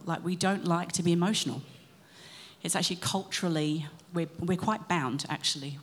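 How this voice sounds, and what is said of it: British accent. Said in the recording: “as you can hear from the accent, um, came from the UK”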